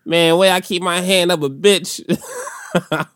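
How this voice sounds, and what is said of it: Exaggerated pimp character voice. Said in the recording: “I could just do pimp voice”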